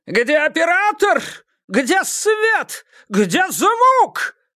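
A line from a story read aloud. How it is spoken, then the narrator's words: Yelling. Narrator (Russian): вопил режиссер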